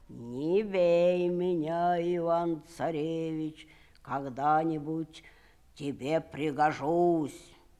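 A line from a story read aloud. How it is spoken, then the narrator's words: Bear speaking in human voice. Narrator (Russian): медведь говорит ему человеческим голосом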